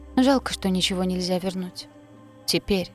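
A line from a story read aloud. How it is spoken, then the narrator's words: Muttering after a pause. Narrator (Russian): пробормотал он, помолчав какое-то время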